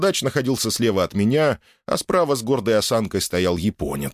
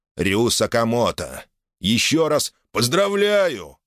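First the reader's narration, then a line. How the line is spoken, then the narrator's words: Kindly chuckle. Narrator (Russian): по-доброму хмыкнул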